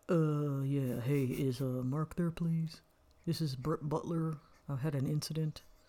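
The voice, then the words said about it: Imitates another person's voice. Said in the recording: “your impression of Judy doing Brett Butler”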